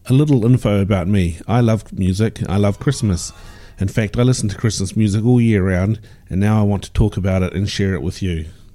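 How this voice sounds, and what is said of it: New Zealand accent. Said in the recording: “I live in New Zealand, hence the accent.”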